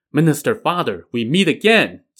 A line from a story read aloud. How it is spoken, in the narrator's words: Ji Fa exclaimed